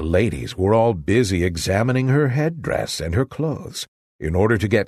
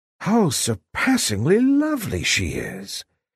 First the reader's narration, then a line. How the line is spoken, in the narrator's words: A confused murmur of admiration fluttered through the crowd, and each was fain to exclaim